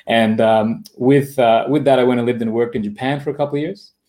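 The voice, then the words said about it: Australian accent. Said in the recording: “my accent is from Australia”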